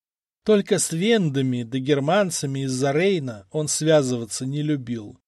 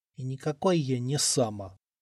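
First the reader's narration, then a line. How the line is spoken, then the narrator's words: Sleepy, offended mutter. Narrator (Russian): обиженно пробормотал он, засыпая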